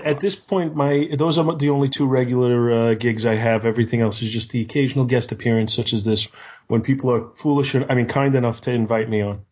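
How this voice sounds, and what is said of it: Deep voice, slight Yankee accent. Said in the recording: “he has this amazing voice ... it's got the depth, it's got the gravitas ... a little bit of a cool, you know, what I call a Yankee accent”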